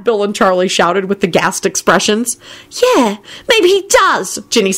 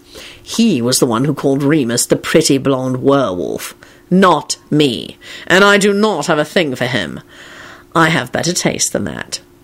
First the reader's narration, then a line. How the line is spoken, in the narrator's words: Kingsley announced coldly to Ginny